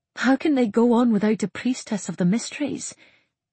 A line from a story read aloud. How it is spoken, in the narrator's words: She said tightly